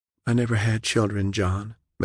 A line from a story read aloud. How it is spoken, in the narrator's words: Michaela sighed